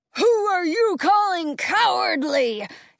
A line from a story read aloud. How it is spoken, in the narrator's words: He roars, looming over us